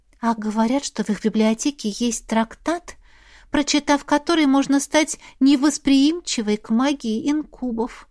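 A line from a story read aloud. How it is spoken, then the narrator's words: Sad whisper. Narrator (Russian): прошептала Мирель, снова став печальной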